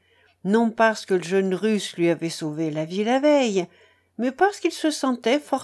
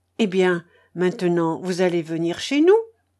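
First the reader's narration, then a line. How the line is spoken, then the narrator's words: Child exclaiming. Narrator (French): s'écria l'enfant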